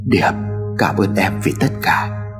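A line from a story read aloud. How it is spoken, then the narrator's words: Soft old man's voice. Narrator (Vietnamese): Ông Hải khẽ nói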